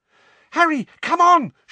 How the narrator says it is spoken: shrieked Hermione from the centre of the knot of people now fighting to get out

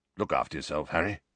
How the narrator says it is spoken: saying gruffly

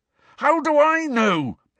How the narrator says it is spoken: bellowed Harry

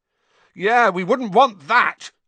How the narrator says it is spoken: Ron shouted angrily

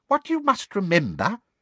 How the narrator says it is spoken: said little Professor Flitwick squeakily

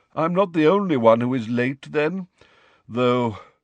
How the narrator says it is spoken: sighed

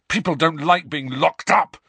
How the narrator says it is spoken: Harry said furiously

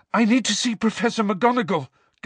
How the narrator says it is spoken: gasped Harry, the breath tearing his lungs

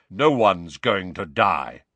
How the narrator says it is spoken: said Kingsley Shacklebolt in his deep, calming voice

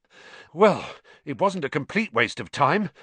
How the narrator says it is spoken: Ron panted

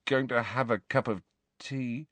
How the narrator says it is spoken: Ron's feeble mutter

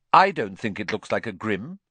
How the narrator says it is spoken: she said flatly

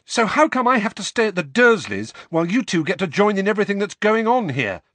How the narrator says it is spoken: said Harry, the words tumbling over one another in a rush, his voice growing louder with every word

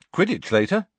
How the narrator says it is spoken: said Harry happily

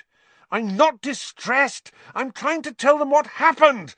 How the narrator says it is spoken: Harry said furiously

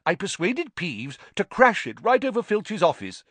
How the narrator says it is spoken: said Nick eagerly

